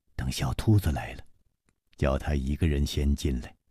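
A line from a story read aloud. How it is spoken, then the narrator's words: Low voice. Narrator (Chinese): 楚留香低声说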